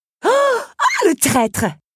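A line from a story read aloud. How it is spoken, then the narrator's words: Latecomer shouting. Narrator (French): cria la retardataire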